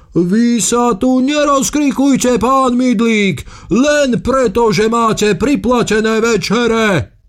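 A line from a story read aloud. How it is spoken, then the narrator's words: Man shouting. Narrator (Slovak): kričal ten prvý pán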